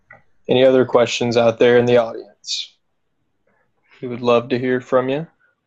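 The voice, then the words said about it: Smooth, suave radio-announcer voice. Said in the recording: “you're sure sounding debonair tonight ... you're just suave and debonair ... Breaking out my radio voice this evening ... You do have a good voice ... You've got a nice voice”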